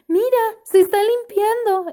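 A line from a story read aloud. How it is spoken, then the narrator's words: Exclaimed. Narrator (Spanish): exclamó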